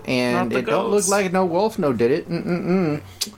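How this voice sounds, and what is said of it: Put-on Southern accent. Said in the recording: “I'm stuck on the southern accent now.”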